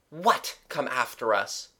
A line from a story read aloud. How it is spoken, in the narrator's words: Gerald snapped rather than asked